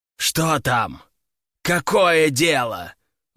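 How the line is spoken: Growl. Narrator (Russian): рыкнул император

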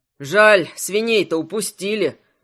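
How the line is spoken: Young man sighing. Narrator (Russian): вздохнул Тополь, высокий стройный парень

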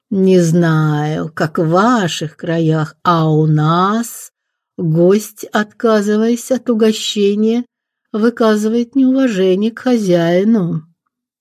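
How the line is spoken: Lazy drawl, demon. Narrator (Russian): лениво протянул демон

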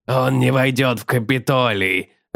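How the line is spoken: Growling. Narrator (Russian): рычал он

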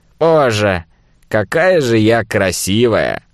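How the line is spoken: Husky, languid, would-be sexy. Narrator (Russian): томно закатила глаза, ахнула и хрипным голосом попыталась как можно сексуальнее выдать

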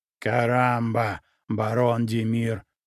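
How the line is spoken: Growling reply. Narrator (Russian): прорычал он в ответ

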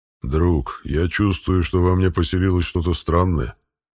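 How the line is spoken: Pet's growling voice. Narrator (Russian): сообщил питомец своим рыкающим голосом

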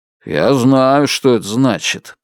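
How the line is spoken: Muttered grumble. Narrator (Russian): пробурчал он

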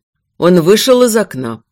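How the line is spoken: Flat lifeless voice. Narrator (Russian): произнес ровным, безжизненным голосом

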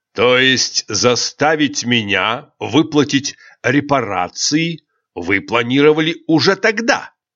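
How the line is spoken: Near-growling emperor's question. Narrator (Russian): Едва ли не с рычанием переспросил император

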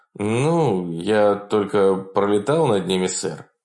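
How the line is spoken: Uncertain. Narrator (Russian): неуверенно проговорил Тремейн

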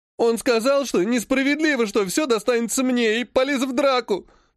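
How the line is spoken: Sobbing. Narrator (Russian): всхлипнул Владик

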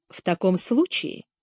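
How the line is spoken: Pleasant voice. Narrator (Russian): приятным голосом произнес Слоун

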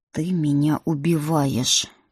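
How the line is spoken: Groaning. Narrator (Russian): простонал принц

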